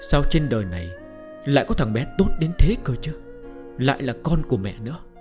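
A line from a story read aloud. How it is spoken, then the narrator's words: Sick woman, happy murmur. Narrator (Vietnamese): Người phụ nữ ốm đau tra tấn đã lâu bỗng tràn ngập hạnh phúc, thủ thỉ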